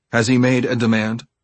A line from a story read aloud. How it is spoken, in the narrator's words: the negotiator asked